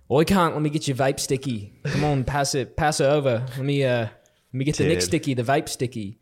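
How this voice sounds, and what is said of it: Put-on Australian accent. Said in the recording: “Australian accents, like easily”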